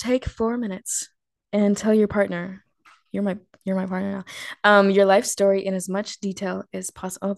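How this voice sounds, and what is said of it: Formal reading-aloud voice. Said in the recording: “in my best reader voice.”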